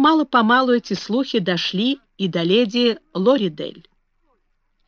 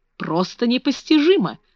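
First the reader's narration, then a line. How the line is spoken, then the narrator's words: Exclamation. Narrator (Russian): воскликнула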